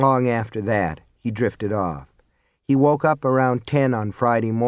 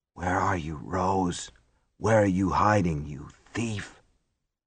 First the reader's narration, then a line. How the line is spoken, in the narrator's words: as the pain bit in and wisps of smoke curled out around his knuckles, he whispered